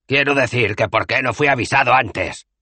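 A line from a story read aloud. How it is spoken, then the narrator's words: Roar. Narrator (Spanish): rugió Galder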